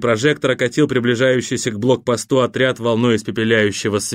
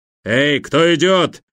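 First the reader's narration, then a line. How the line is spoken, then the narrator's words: Bark over loudspeaker. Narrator (Russian): рявкнул громкоговоритель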